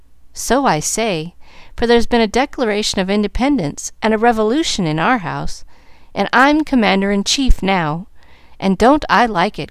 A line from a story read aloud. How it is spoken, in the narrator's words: cried Molly, complacently